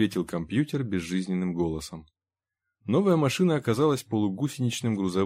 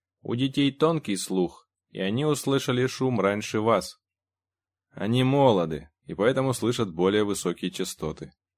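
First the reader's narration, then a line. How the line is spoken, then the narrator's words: Grumbling. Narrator (Russian): проворчал Генри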